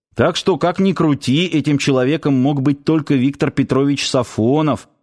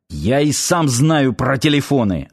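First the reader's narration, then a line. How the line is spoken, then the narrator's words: Snapping back. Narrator (Russian): огрызнулся Ярчук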